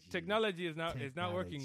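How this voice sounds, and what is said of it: Bad put-on foreign accent. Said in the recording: “In the words of a foreigner... That's a bad accent... yours was horrible”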